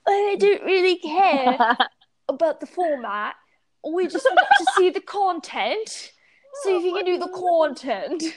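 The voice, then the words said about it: Imitated British teacher accent. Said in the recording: “one of them's British, I'm going to pretend to be him ... Good accent there”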